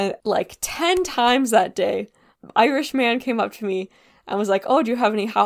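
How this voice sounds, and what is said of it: Usual voice. Nothing is said of it.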